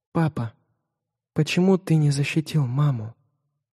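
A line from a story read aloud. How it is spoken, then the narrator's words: Silent mouthed whisper. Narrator (Russian): беззвучно прошептали губы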